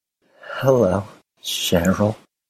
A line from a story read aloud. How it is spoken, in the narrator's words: Neville said, his voice wavering only slightly